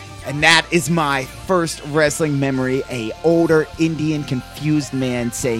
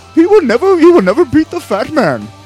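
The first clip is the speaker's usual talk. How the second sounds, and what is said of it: Put-on Indian accent. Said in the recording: “this is not a racist Indian impression, this is just the shittiest Indian impression that I can do ... that's not a shitty impersonation, that's pretty dead on”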